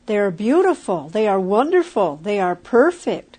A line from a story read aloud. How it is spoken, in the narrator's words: exclaimed William